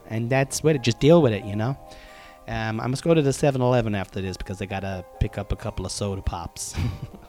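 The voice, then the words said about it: Put-on American accent. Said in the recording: “I don't know why I'm speaking in an American accent, but I just am.”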